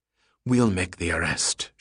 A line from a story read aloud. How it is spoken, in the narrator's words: whispered